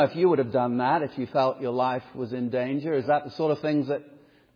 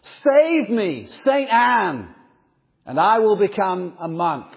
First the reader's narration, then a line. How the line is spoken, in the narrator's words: This lightning bolt flashed very close to Luther, and he immediately cried out